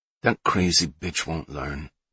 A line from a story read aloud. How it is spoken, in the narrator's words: Antonio muttered